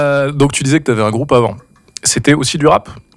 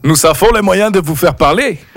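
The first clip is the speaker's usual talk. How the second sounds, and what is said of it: Deliberately bad put-on foreign accent. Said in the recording (French): “mon accent là. L'accent est très mauvais, je suis désolé.”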